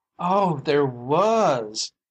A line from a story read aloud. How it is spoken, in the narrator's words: moaned his wife